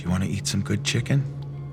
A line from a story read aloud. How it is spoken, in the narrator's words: whispers